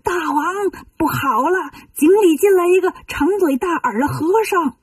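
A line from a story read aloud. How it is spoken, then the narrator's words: Shouting while swimming away. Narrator (Chinese): 一个巡水的夜叉 一边游一边喊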